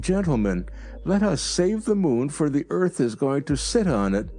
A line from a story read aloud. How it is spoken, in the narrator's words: I exclaimed